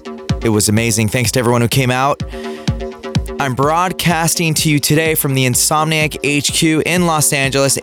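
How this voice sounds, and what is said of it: Slightly nasal voice. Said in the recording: “My voice is a little nasally because I'm still recovering”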